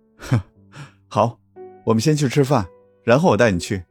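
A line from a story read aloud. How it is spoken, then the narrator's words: Soft laugh. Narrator (Chinese): 康淑怀轻轻笑出声，说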